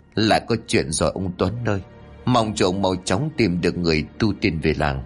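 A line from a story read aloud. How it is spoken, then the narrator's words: Tense muttering. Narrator (Vietnamese): Cô Mão khuôn mặt càng lúc càng căng thẳng, cụ lẩm bẩm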